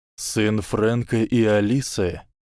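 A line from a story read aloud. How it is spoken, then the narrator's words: Sad mumble. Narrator (Russian): печально пробормотал Ремус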